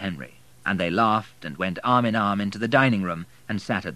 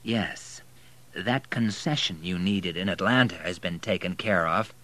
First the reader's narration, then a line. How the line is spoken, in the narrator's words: said Henry in a conspiratorial voice